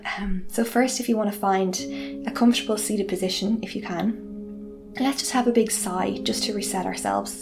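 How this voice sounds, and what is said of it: Calm yoga-instructor voice. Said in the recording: “try and put on my yoga voice”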